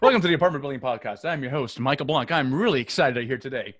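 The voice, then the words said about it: Announcer-style radio voice. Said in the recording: “I am trying to develop my radio voice”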